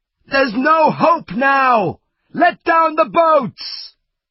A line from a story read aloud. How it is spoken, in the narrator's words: someone shout